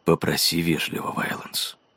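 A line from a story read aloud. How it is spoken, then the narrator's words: Whisper. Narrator (Russian): прошептал он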